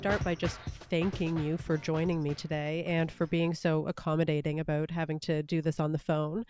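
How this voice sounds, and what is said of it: Voice sounds a little off, unwell. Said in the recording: “I apologize if my voice sounds a little off. My household is currently plagued with whatever, you know, the preschool virus of the day is.”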